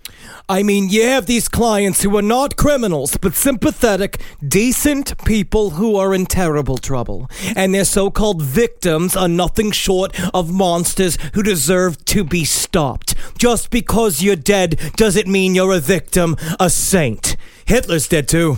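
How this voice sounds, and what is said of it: Joan Rivers impression. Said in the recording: “good Joan Rivers impression”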